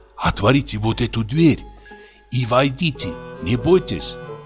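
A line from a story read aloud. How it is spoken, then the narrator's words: Whispering, out of breath. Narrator (Russian): тяжело перевел дух и сказал шепотом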